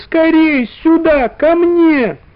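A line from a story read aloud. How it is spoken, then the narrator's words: Muffled desperate shout. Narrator (Russian): Она кричала, что было силы, но голос ее не мог пробиться сквозь мягкие толстые стены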